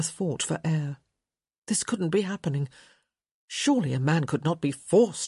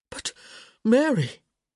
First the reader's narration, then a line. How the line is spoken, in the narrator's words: gasped